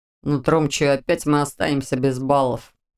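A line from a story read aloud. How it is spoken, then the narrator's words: Grumble. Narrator (Russian): проворчал Виктор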